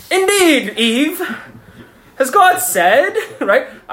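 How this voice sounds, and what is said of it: Put-on evil British accent. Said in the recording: “I always read this in a British accent ... It sounds like he would have had a British accent. ... It sounds like an evil British man.”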